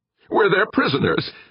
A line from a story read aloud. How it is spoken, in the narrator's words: Meek wailed